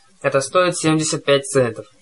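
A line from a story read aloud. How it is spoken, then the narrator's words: Grumbling. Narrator (Russian): проворчал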